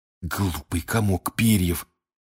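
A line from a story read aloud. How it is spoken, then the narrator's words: Hiss. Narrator (Russian): прошипел Рон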